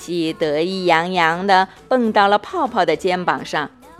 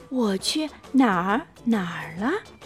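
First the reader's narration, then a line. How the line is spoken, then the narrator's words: Whispered. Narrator (Chinese): 琪琪小声的告诉泡泡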